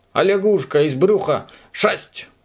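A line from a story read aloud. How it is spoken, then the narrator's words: Child crying out in pity. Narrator (Russian): одной девочке стало жаль лягушку, и она закричала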